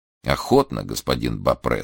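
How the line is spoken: Calm old man's reply. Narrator (Russian): спокойно отвечал старик

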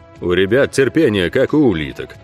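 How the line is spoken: Booming drone. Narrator (Russian): прогудел Ог

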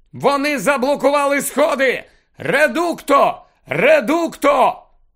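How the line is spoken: Shouting. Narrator (Ukrainian): хтось закричав

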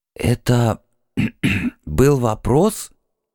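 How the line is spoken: Slightly hoarse question. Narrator (Russian): осведомился шаман слегка севшим голосом

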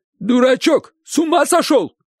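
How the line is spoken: Uncle shouting. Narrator (Russian): крикнул дядя

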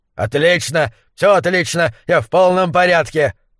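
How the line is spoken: Barking, snapping. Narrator (Russian): рявкнул гуляш

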